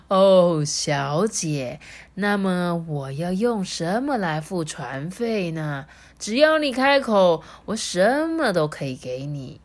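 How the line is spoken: Pleased demon. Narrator (Chinese): 恶魔听了就觉得很舒服啊，他就说

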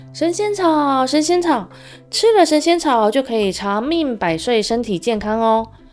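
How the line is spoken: Loud hawking cry. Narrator (Chinese): 沿路又大声的叫卖着

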